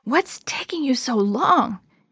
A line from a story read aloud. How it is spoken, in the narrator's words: Chris hissed